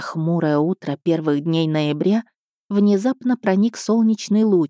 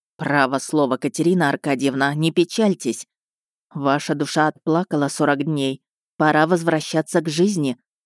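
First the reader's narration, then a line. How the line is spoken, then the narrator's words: Plain. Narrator (Russian): сказал Аристарх Павлович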